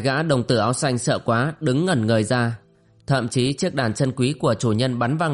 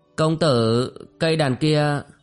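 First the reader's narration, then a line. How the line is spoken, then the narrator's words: Hesitant question. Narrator (Vietnamese): đồng tử ấp úng hỏi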